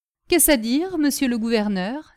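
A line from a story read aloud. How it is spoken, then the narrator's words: Exclaiming. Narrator (French): s'exclama Gaétan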